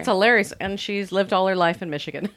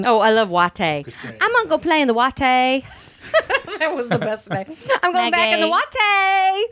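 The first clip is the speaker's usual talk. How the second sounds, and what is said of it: Dropped R's, slight Southern accent. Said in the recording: “doesn't have her R's down yet ... a little Louisiana accent ... A little bit of Southern”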